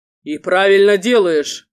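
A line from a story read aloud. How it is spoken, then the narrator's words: Deep bass voice. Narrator (Russian): пробасили рядом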